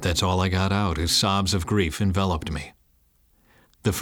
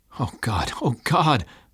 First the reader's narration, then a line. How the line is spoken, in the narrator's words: cried out, frantically praying